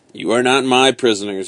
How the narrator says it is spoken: explained coldly

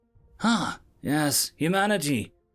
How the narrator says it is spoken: my assistant starts off nervously

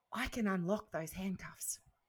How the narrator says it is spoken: told me quietly

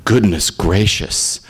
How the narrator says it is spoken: his father mutter

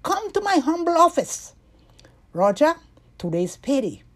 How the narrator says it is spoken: He called out to them

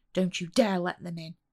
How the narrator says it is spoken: Amy snapped at Becky angrily

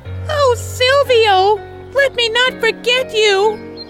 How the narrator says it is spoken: she cried out suddenly

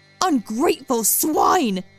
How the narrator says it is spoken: her mother screeched

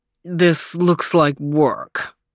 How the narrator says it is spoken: grumbled Overton

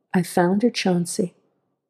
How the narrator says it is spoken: he quietly said

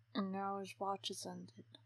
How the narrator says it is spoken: Gilly murmured after him

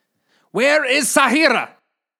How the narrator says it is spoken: Fadel shouted again

